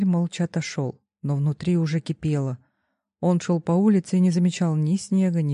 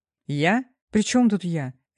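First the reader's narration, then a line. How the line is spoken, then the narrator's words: Sharp, louder than intended. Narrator (Russian): Резко ответил он, громче, чем хотел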